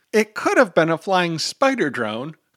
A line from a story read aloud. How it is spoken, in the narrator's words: Kirby whines